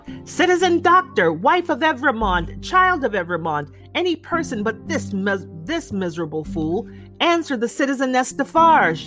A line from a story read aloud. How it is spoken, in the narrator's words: raised her voice and called out